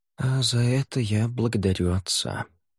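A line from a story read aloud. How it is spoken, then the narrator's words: Muttering. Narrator (Russian): пробормотал Савьер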